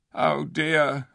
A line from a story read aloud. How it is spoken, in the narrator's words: whimpered Shift